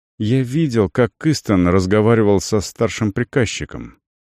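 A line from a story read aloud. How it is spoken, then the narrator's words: Quiet. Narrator (Russian): негромко произнес Рекер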